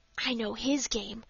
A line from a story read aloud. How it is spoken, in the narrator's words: whispered Dick